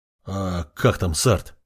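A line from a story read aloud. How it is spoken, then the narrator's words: Student's uncertain question. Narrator (Russian): неуверенно спросил ученик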